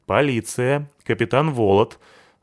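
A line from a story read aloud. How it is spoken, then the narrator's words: Stern, from behind. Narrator (Russian): строго сказала сзади Лайса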